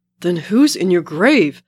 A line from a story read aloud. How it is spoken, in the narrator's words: Steve shouts